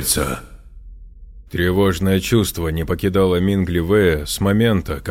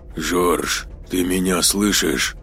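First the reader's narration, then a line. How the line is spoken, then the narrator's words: Quiet, into a microphone. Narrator (Russian): Сказал я тихо в микрофон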